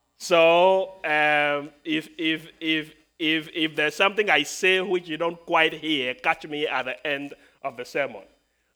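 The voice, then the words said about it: Speaks with a noticeable accent. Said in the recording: “people tell me that I have an accent ... my accent”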